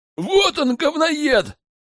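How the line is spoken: Group yelling. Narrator (Russian): заорали они

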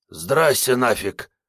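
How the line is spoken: Hoarse greeting. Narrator (Russian): хрипло приветствовал он

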